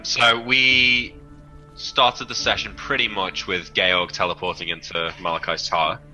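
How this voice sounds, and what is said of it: Put-on English accent. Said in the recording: “Not in falsetto, I'll do it in an English accent.”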